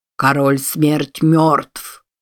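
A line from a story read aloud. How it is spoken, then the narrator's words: Sepulchral voice. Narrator (Russian): за могильным голосом произнес Маджи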